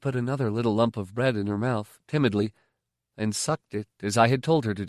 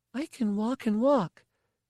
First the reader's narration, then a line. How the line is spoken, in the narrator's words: she said earnestly